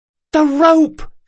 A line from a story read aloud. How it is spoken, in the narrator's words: she yelled